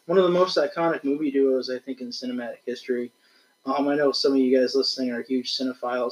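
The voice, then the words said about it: Hoarse voice from illness. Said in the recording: “my voice is still a little hoarse ... He's been sick the last few days”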